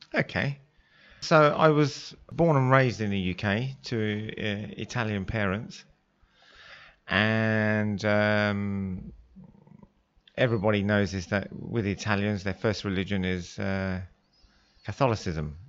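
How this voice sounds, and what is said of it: English accent. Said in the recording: “you being having an English accent”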